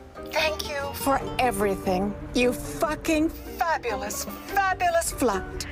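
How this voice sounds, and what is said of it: Usual voice. Nothing is said of it.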